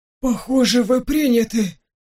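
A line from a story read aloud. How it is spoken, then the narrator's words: Hoarse, strained. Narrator (Russian): Сипло выдавил Тимур, когда обрел дар речи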